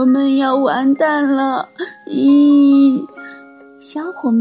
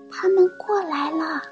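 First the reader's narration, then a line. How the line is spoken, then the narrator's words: Whisper. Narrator (Chinese): 小火花小声说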